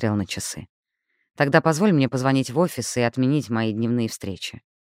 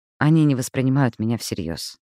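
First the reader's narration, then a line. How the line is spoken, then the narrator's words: Tired objection. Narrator (Russian): устало возразила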